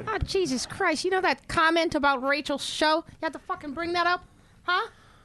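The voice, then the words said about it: Impression of Billy. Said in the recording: “I could do a good Billy.”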